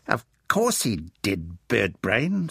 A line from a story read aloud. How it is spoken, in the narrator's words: scoffed Doreen